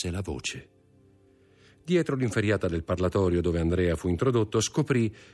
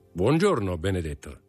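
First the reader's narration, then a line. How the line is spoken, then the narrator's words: Clear, ringing voice. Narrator (Italian): disse Bertuccio con la sua voce chiara e sonora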